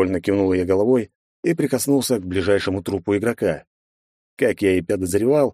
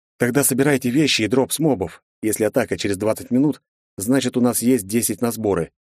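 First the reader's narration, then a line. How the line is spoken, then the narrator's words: Sharp command. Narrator (Russian): резко приказал я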